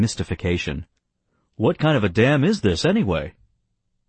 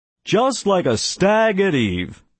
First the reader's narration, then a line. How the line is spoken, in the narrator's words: Brinker roared back